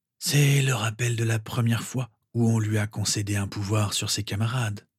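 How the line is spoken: Sad explanation. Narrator (French): expliqua le directeur d'un ton triste

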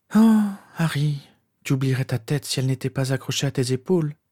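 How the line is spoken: Sighed. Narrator (French): soupira celle qui ressemblait à sa mère

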